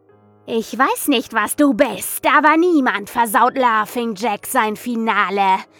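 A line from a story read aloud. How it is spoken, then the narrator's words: Shrieking at something. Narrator (German): kreischte ich das Ding an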